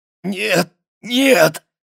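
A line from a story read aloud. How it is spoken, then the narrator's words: Hoarse shout. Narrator (Russian): крикнула хрипло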